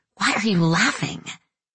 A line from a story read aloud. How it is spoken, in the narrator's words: suffocating our laughter, while Carmela whispered insistently